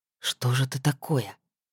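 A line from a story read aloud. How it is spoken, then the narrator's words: Frowning mutter. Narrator (Russian): пробормотал Эмир, хмуро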